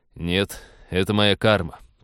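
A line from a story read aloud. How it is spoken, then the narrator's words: Grumbling. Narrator (Russian): проворчал капитан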